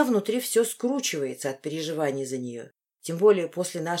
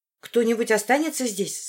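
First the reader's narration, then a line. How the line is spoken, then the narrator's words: Anxious question. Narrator (Russian): спрашиваю взволнованно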